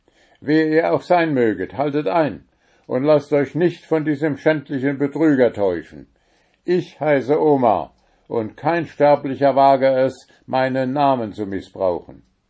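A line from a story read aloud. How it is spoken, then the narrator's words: Calling out. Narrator (German): rief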